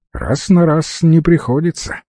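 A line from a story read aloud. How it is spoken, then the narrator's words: Snorting. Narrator (Russian): хмыкнул Кривуля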